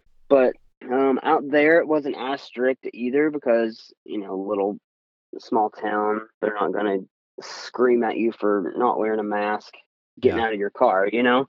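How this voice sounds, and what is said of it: Thick East Tennessee accent. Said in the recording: “I was in East Tennessee that whole time. My accent got a little thicker.”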